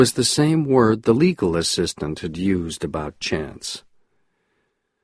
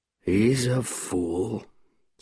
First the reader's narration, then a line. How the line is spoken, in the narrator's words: said Arthur very quietly